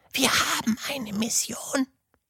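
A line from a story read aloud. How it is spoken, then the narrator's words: Whisper. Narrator (German): flüsterte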